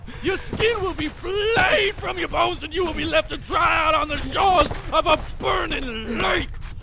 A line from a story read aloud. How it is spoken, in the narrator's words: He screamed